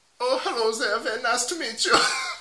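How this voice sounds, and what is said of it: Put-on German-sounding accent. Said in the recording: “I went real German... But you're meant to be Dutch... it's a little bit Bruno as well... You're going Austrian as well”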